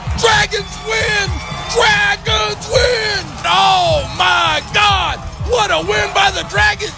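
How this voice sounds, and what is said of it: Excited shouting play-by-play. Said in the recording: “I'm going to lose my voice.”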